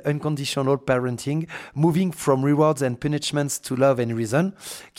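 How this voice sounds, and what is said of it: French-accented English pronunciation. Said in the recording (French): “tu m'excuseras d'avance pour mon superbe euh, accent”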